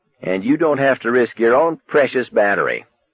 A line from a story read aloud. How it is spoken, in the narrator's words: he spat